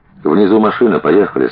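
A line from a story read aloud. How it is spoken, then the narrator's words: Plain. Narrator (Russian): сказала Маруська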